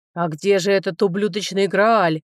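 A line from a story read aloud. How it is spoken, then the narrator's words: Roared. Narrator (Russian): взревел лорд Руце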